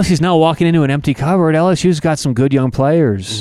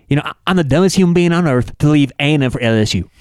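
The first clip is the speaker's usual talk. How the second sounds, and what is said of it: Imitates another person's voice, side-mouthed. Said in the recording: “my Jimbo Fisher impression ... That's pretty good ... you kind of like talk out the side of your mouth a little bit”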